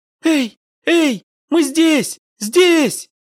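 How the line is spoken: Girl shouting joyfully. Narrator (Russian): закричала, подпрыгивая от радости девочка

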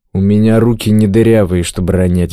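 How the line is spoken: Grumbling. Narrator (Russian): буркнул Клёпа

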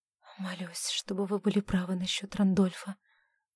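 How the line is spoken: Whisper. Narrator (Russian): прошептала она

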